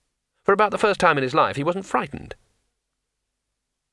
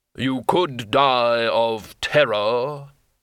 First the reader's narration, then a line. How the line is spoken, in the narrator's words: the hood intoned